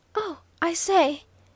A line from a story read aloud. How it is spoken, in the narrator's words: gasped Waldo when he could rally from the sudden blow